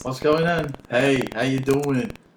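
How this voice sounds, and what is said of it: Unconvincing attempt at Italian accent. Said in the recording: “It goes in and out ... It just goes back and forth ... That's not an Italian accent.”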